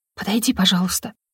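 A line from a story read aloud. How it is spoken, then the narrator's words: Whispered in thought. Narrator (Russian): мысленно прошептала я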